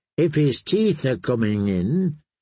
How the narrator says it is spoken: he said feebly

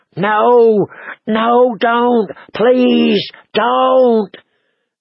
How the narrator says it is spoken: the black thing flopped and fought, screeching

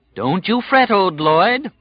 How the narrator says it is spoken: the dark man said cheerfully

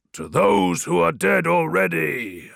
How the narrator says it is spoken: I roared in unison with my brothers

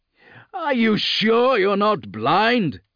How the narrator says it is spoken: Lucas called out

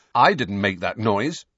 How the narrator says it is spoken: said Harry firmly

